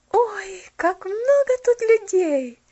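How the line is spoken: Joyful exclamation. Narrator (Russian): воскликнула она радостно

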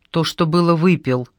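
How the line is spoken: Plain. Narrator (Russian): сказал Пашка

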